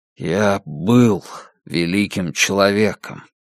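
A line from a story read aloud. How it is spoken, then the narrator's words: Hollow muffled voice. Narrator (Russian): Дилейни глухо произнес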